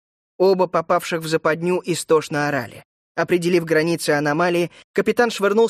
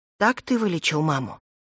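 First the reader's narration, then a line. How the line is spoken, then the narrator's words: Whispered question. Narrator (Russian): шепотом спросила Кора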